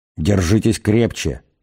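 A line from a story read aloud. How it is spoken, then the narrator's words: Quiet. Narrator (Russian): тихо произнес Форд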